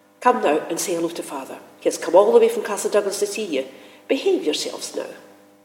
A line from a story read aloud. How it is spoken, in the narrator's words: Ashamed now of our behaviour, my usually placid mother called sharply